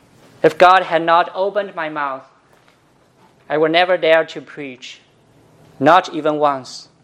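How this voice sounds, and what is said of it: Non-native accent, flat tone. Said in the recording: “my strange accent, my flat tone, my awkward style, and I will never preach like a native speaker”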